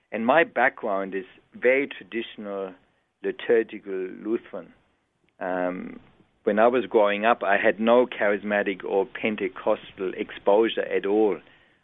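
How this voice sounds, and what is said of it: German accent. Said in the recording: “you can hear from my voice, I wasn't born in Australia. I was born and raised in Germany”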